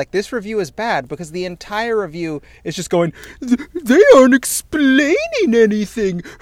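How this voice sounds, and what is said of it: Imitates another person's voice. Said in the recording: “That was actually a really good Doug Walker impersonation. Your voice really was doing the Nostalgia Critic thing there.”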